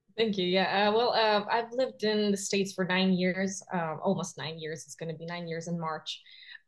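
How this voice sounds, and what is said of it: Strong foreign accent. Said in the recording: “your accent is strong... I can really hear it”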